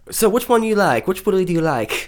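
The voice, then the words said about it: Good put-on British accent. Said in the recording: “British accent, by the way. ... It's very good.”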